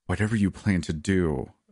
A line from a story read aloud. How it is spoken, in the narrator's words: Amunda groaned